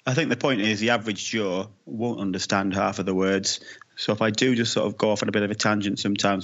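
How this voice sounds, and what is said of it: Dodgy mixed Irish-style accent. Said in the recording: “my dodgy accent ... they have a paddy and now they're listening to some Brad Pitt snatch style mongrel accent”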